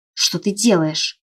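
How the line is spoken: Hissing. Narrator (Russian): зашипела я

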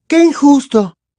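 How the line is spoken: Consoling exclamation. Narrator (Spanish): exclamó Hermione intentando consolar a Harry

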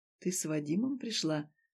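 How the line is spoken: Insinuating breathy question. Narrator (Russian): вкрадчиво спросил он, будто буквально выдыхая ей в ухо

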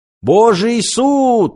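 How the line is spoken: Shouted out. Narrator (Russian): выкрикнул кто-то

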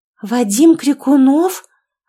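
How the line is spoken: Stunned exclamation. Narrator (Russian): ошарашенно воскликнула я

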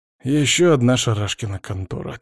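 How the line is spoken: Heavy sigh. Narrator (Russian): тяжело вздохнул Алексей

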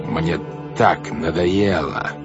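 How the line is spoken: Growling. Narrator (Russian): зарычал он

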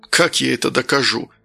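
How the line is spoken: Weary speech. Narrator (Russian): устало произнес Данил

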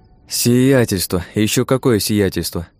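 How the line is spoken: Grumbling. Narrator (Russian): проворчал

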